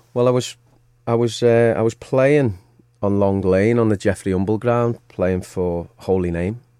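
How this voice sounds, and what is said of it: Merseyside (Scouse) English accent. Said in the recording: “you're obviously from Merseyside, we can tell that by your accent”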